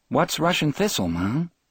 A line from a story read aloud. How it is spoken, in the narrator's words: Dave asked